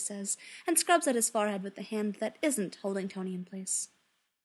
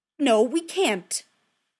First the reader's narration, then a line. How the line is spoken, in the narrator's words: Steve snaps